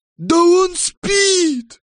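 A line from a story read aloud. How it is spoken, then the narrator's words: Surprised shout. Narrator (Russian): дровосек удивленно крикнул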